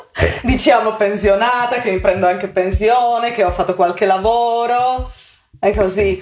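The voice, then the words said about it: Slovak accent speaking Italian. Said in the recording (Italian): “accento è un accento, tu da dove, di che accento è? ... Slovacco.”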